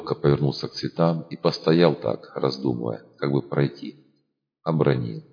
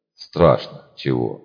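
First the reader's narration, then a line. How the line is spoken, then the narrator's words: Snapping. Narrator (Russian): огрызнулся он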